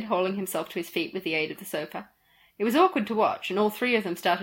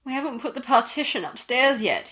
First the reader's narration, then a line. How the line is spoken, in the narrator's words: he groaned